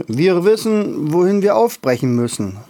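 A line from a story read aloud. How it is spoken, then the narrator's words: Called from afar. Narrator (German): rief Tröpfchen Grisha schon vom Weiten zu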